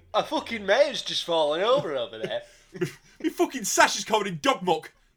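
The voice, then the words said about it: Put-on Yorkshire accent. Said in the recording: “I don't know what a Derby accent is, but I'm gonna do Yorkshire because that's the closest I think it is”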